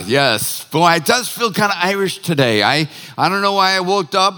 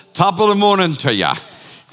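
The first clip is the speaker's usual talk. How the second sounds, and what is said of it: Put-on Irish accent. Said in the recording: “I started using the Irish accent this morning”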